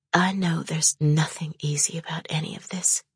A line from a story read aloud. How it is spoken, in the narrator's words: she whispered